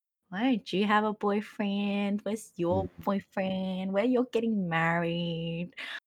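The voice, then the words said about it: Speaks in a put-on accent. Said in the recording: “I don't know why I'm doing this accent”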